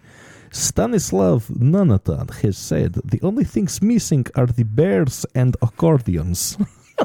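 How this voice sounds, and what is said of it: Put-on Russian accent. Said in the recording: “Russian accent, please ... Yes, this is good Russian accent for me.”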